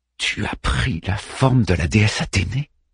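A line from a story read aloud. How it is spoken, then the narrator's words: Whispered. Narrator (French): chuchote Théano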